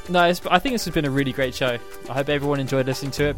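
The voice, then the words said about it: Strained, fading voice. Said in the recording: “I've actually feel like I'm losing my voice ... I've just been screaming at the microphone so loudly”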